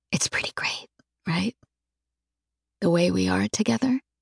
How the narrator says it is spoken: I say softly

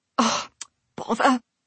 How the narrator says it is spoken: she moaned

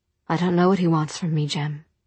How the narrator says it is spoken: she said in a low voice

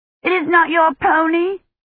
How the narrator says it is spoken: Agnes shouted

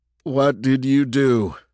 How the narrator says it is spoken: Chase tried to sound insistent, but it sounded more like a desperate croak

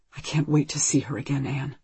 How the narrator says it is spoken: he whispers

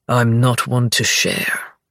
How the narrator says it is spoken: the king says, his voice low and steady

